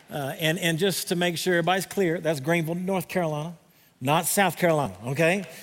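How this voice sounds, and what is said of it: Southern American accent. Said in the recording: “You're going to have to deal with my southern accent today... a little southern in here”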